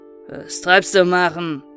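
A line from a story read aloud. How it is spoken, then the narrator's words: Sleepy call. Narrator (German): rief er mit schläfriger Stimme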